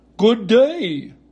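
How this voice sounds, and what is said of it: Husky scarecrow character voice. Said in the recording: “in a rather husky voice.”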